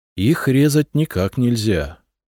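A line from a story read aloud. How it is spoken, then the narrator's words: Sighing again. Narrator (Russian): снова вздохнул Коста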